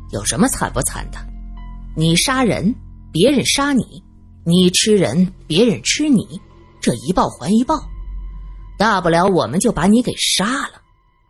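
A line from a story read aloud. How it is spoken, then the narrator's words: Cold. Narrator (Chinese): 罗隐冷冷的说道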